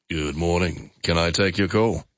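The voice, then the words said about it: Creepy-sounding phone greeting voice. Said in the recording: “his voice sounds a little like this ... that just sounds a bit creepy”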